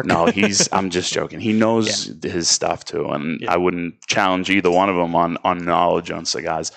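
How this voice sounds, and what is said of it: Strong accent, adds and drops R's. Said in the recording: “I got the worst accent ever. I add R's when they shouldn't be in places. I take them out of words.”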